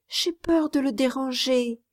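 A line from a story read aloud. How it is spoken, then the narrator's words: Timid child. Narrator (French): dit timidement l'enfant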